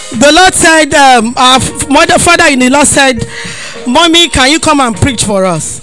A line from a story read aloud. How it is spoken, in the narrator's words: I laugh